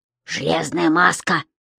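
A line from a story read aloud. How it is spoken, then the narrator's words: Hissed. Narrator (Russian): прошипел Том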